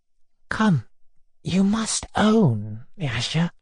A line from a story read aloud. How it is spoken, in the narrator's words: he began in a whisper